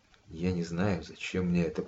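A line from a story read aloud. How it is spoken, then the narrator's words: Muttered. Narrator (Russian): пробормотал я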